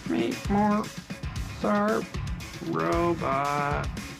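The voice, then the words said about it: Badly done robot voice. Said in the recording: “do the robot voice... That's a terrible robot voice.”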